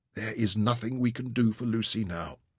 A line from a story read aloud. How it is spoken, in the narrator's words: he whispered huskily